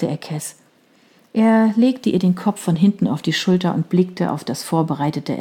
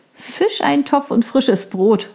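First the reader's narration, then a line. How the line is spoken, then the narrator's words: Laughing. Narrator (German): lachte sie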